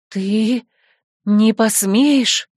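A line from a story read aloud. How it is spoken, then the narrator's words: Terrified gasp. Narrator (Russian): В ужасе выдохнула Дриада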